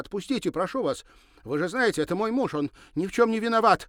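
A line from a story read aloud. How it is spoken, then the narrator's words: Desperate shouting. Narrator (Russian): отчаянно кричала она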